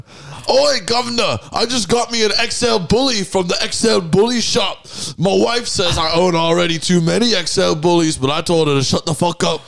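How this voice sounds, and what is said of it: Put-on rough British accent. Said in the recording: “Can you do a British accent? ... Oi, governor. Yeah, you're one of those, like, real, like, dirty, like, South Island British guys whatever.”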